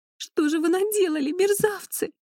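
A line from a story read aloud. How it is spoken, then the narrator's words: Sobbing. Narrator (Russian): всхлипывала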